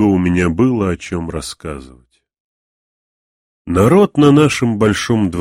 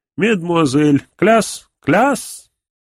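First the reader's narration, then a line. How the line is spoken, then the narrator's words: Cry out. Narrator (Russian): вскрикнет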